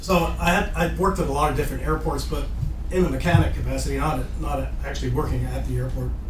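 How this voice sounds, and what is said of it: Canadian accent. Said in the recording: “So that's what your accent is Canadian? ... It is Canadian.”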